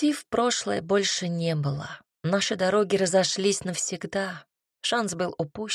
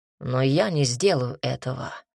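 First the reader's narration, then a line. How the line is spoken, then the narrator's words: Gloomy. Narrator (Russian): мрачно продолжил Таман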